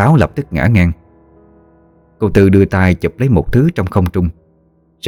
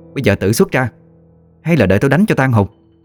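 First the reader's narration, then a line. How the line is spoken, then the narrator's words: Stern voice. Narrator (Vietnamese): Cô nghiêm giọng nói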